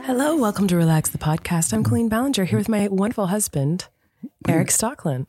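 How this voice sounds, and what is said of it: Raspy, quiet voice. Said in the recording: “raspy quiet thing tonight? ... I've got a cold.”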